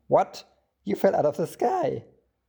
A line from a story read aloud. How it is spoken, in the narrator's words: he exclaimed